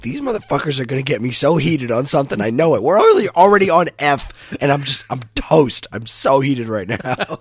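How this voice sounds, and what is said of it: Hoarse, nearly lost voice. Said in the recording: “lost my voice ... I have no voice.”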